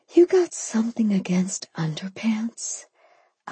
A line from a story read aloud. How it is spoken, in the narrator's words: I whispered